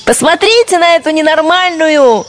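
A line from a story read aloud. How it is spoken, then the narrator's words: Cheerful shouting, several voices. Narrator (Russian): весело кричали ей товарки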